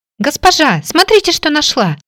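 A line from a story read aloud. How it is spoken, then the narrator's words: Elated exclamation. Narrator (Russian): воскликнула девушка, окрыленная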